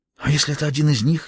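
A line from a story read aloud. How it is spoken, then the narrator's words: Breathless whisper. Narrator (Russian): едва дыша прошептала она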